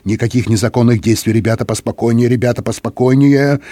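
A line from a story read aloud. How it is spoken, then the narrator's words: Muttered. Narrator (Russian): Сержант Хиггинс бормотал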